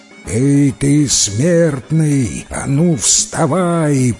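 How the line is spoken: Roaring. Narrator (Russian): проревел Дев

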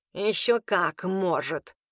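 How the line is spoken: Snort. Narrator (Russian): фыркнул Граар

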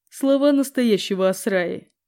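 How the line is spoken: Wry snort. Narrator (Russian): хмыкнул Григордиан

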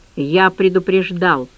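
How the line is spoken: Quiet. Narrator (Russian): тихо произнес

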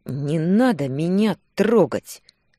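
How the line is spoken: Clipped syllables through teeth. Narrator (Russian): Процедила по слогам

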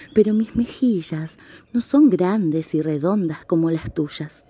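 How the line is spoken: Sighing. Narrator (Spanish): suspiró la señora pingüino

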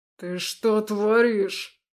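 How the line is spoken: Growling. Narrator (Russian): прорычал он

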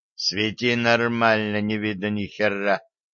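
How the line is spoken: Involuntary grumble. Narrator (Russian): невольно буркнул дядя Ваня

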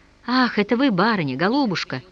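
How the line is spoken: Joyful exclamation. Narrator (Russian): воскликнул тот, радостно всплеснув руками при виде хозяйки

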